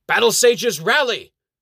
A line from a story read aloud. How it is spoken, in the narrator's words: Sir Sean's voice booms